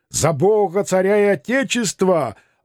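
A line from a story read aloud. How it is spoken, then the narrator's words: Group shouting back. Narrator (Russian): ответно кричали мы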